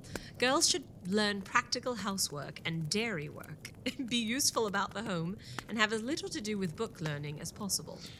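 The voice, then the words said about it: Reads aloud in a put-on accent. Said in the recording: “this accent is getting tough”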